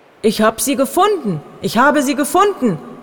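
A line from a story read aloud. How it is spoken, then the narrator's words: Joyful exclamation. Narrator (German): rief er voller Freude aus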